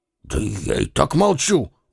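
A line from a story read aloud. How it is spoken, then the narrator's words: Mutter. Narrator (Russian): бормочет Денис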